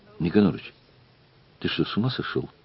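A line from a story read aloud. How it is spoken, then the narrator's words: Whispering. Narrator (Russian): зашептал Воробьев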